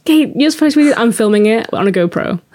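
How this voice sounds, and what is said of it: Put-on Texan accent. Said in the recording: “For some reason, you have a Texan accent.”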